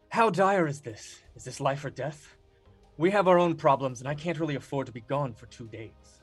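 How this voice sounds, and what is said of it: Performs a character's voice. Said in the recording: “my best Davil impersonation”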